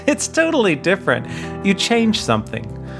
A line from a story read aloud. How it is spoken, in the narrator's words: my littler version of me pipes in with a giggle and says